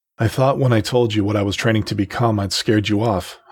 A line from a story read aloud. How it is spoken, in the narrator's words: I said